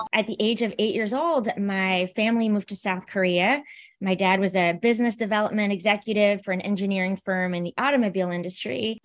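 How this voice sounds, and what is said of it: American-sounding accent. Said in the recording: “I know I sound American. ... Yeah, you do.”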